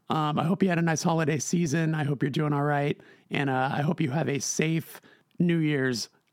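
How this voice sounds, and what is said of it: Raspier than usual voice. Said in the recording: “I caught a little cold. You might be able to tell from my more raspy than usual voice”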